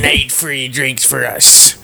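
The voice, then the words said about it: Pirate voice. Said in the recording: “my pirate impression”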